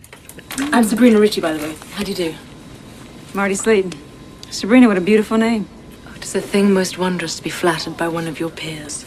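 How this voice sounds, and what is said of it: Distinctive cold-sounding accent. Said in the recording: “I love the accent ... It makes me sound cold and heartless”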